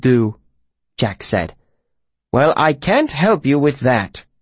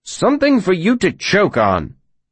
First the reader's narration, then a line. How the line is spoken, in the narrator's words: the tinker spat